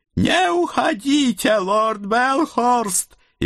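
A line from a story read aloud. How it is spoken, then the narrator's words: Dwarf howling, spluttering. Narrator (Russian): взвыл карлик, брызгая слюной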